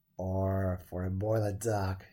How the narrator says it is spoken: said to himself with a sigh

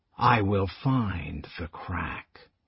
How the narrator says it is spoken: said the old man softly

